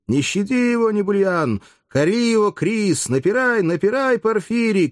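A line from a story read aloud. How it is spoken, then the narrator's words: Crowd shouting. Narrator (Russian): кричали те, у кого были в руках таблички с именами гладиаторов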